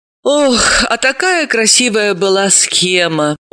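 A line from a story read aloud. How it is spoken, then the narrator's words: Upset, disappointed. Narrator (Russian): огорчилась Далила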